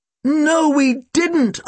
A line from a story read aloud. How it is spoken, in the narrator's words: I yelled